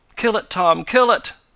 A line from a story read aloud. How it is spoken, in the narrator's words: begged the eccentric man